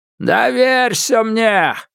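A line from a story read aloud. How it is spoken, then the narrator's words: Yelling over rushing water. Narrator (Russian): завопил он, перекрикивая шипение и гул воды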